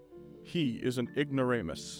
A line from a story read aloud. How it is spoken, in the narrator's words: interrupted